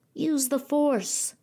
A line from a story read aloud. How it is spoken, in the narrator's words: say in a tinny voice